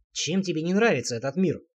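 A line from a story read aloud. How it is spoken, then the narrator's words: Snort. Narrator (Russian): хмыкнул я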